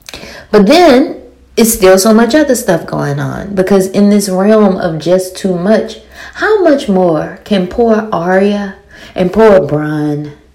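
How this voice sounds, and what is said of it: Very thick accent. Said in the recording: “I have a very thick accent.”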